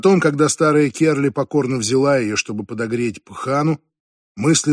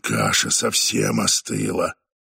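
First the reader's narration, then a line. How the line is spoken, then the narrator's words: Grumbling. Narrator (Russian): проворчал он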